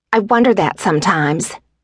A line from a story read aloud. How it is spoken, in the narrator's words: she snapped